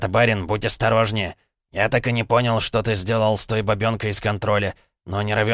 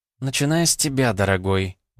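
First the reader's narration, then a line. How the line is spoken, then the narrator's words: Smiling coo. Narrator (Russian): улыбнулась она и проворковала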